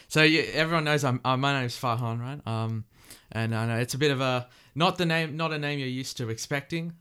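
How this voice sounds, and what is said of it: Australian accent. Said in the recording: “you're hearing my Aussie accent”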